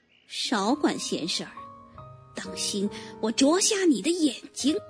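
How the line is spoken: Low threatening hen. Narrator (Chinese): 老母鸡压低了嗓子威胁道

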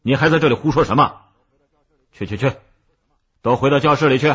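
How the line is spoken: Angry. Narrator (Chinese): 孙老师愤怒的

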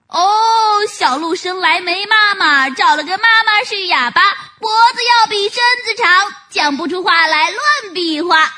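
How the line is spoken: Playful shouting bear cubs. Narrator (Chinese): 几只小熊调皮地，喊叫着

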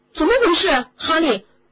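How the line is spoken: Loud shout. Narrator (Chinese): 迪恩大声的嚷了起来

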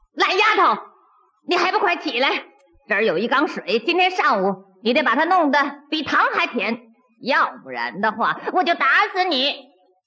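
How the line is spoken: Angry stepmother yelling. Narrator (Chinese): 后娘气得站在院子里嚷

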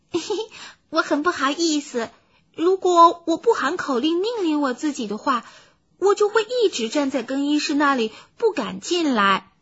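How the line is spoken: Smiling normal voice. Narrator (Chinese): 他向塞德尔格伦夫人微笑着，并且用正常的声音说

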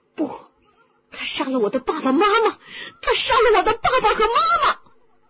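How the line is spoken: Shouting. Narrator (Chinese): 哈利喊着

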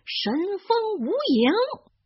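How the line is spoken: Loud shout. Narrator (Chinese): 他大声的喊

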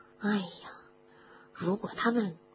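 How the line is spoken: Whispered muttering. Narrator (Chinese): 罗恩在哈利的耳边小声的嘀咕着

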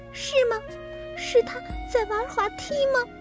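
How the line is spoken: Tearful smile. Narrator (Chinese): 小刺猬挂满泪珠的脸笑了

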